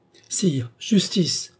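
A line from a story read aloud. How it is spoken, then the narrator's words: Old lady exclaiming. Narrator (French): s'écria la vieille dame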